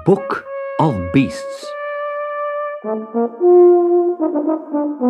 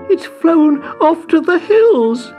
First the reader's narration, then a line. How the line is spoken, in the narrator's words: he sobbed to Nanny Moss